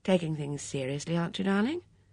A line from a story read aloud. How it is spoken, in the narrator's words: He asked gently